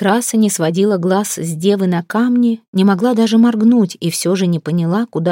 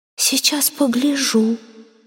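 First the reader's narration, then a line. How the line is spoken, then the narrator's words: Whispering water. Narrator (Russian): шепнула вода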